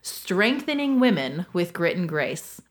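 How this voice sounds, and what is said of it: Announcer-style radio voice. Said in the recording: “in my best radio voice”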